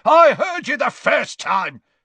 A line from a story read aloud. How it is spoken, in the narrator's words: snapped Gaunt